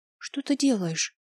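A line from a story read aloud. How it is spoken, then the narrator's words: Whisper. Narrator (Russian): шепнула она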